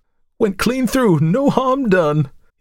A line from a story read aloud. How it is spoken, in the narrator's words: he cried jubilantly